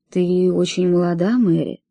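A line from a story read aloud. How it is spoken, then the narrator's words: Gentle. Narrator (Russian): мягко сказал он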